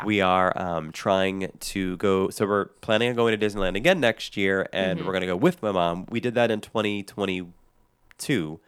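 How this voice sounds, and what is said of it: Slightly sick, deeper voice. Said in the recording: “a little under the weather, and I probably still sound that way ... my voice is a little deeper”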